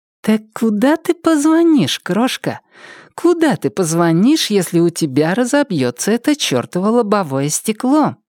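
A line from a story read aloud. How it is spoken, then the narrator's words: Purring. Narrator (Russian): промурлыкала Триша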